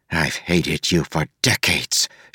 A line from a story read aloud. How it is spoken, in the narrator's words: she hissed at him